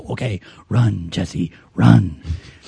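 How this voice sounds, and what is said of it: Imitates a TV character's voice. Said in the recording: “That was a shockingly good Harrison Wells from Earth 2... that was a good impersonation”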